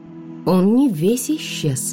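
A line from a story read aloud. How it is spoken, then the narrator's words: Slow speech. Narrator (Russian): медленно произнесла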